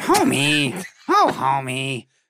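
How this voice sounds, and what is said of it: Marge Simpson cartoon character voice. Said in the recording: “my Marge impression, I think, is still, it's gotten ... better ... Marge Simpson impression”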